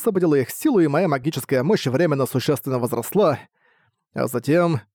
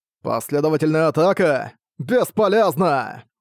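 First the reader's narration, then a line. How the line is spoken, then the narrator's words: Roared. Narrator (Russian): Проревел Граушерра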